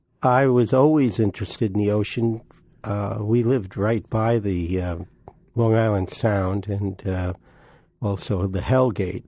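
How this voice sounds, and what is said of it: Brooklyn accent. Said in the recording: “is an East Coast native, by the way. Brooklyn, you'll hear that pretty soon in his wonderful accent.”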